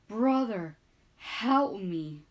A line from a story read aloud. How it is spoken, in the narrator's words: cried Mufasa